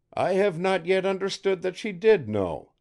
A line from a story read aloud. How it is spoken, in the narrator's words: said the professor dryly